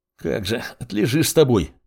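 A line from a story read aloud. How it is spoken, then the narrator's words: Wheezy rasp. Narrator (Russian): просипел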